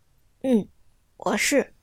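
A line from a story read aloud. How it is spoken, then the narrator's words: Quiet question. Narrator (Chinese): 小声的问道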